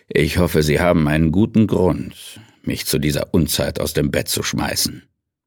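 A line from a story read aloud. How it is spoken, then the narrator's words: Grumbled. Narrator (German): brummte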